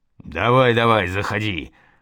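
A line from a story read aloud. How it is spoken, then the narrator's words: Menacing bass of guard. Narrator (Russian): пробасил грозный голос охранного рейтера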